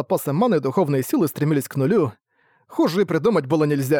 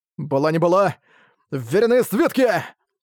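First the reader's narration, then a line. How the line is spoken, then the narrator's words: Shouted out. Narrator (Russian): выкрикнул Арк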